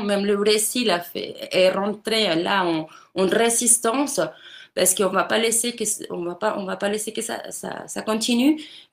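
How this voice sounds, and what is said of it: Speaks French with a foreign accent. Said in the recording (French): “désolé pour l'accent ... quel plaisir l'accent ... ça m'affecte positivement cet accent”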